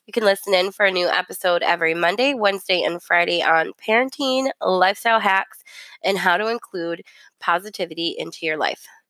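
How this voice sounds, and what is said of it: Scratchy, rough voice. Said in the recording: “I know I sound kind of creepy. My voice is messed up because I have allergies ... you might have to turn me down a little bit. I might just sound like scratchy or whatever.”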